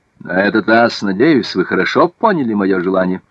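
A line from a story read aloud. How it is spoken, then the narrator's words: Sharp tone. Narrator (Russian): обратился Наполеон к Савари резким тоном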